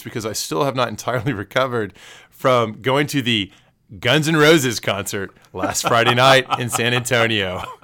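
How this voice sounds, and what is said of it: Slightly strained, worn-out voice. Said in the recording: “my voice is a little shot, so if listeners think I sound a little funny”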